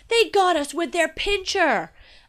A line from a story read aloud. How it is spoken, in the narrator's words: Dad yelled